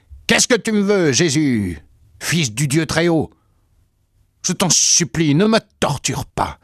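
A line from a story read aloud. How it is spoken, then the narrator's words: Loud howling cry. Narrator (French): il poussa des hurlements en criant d'une voix forte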